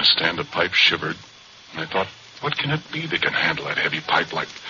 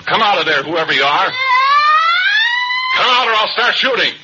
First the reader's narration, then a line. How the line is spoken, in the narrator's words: I yelled